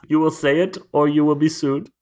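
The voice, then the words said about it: Good put-on German accent. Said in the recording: “I'm proud of you for that German accent there ... That was very good. That was lovely.”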